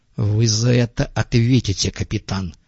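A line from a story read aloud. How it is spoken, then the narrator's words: Hissing. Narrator (Russian): буквально прошипел Глоттер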